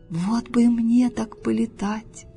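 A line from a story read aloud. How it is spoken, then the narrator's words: Sighing toad. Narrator (Russian): вздохнула жаба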